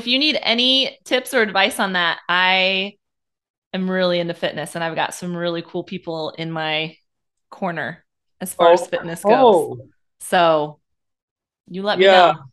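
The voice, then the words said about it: Strong Midwestern American accent. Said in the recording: “that amazing accent ... I'm from the Midwest, born and raised. ... really strong accents”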